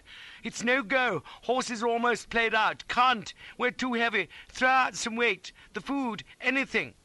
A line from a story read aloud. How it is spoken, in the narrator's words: cried